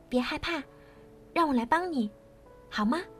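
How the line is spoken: Soft comforting. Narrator (Chinese): 他轻声的安慰她

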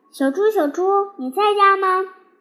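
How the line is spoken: Calling out. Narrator (Chinese): 我在门口喊

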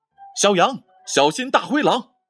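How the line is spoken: Urgent shout. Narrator (Chinese): 橘子老虎忙喊道

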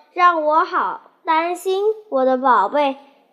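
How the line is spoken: Gentle. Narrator (Chinese): 它温柔地说

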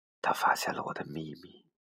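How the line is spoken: Whispered. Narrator (Chinese): 悄声说

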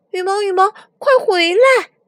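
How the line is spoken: Crying out. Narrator (Chinese): 迪伦叫了起来

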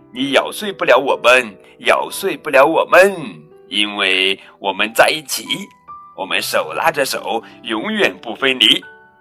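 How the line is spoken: Laughing chorus singing. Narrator (Chinese): 纸娃娃们却大笑起来，他们齐声唱道

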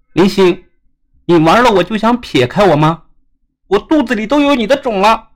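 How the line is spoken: Resentful girl shouting. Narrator (Chinese): 那个女孩子立即愤恨的对林星喊道

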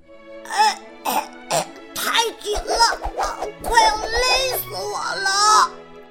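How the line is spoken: Shouting. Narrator (Chinese): 塔特叫喊着

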